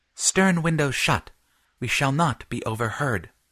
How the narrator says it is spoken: whispered Fitz

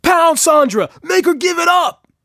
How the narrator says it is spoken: shouts one

